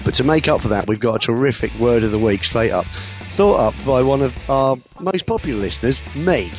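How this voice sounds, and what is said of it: Husky, hoarse voice. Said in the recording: “I am sounding a little bit husky this week because I did lose my voice monumentally last weekend”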